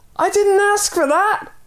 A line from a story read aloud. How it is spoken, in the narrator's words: yelled the man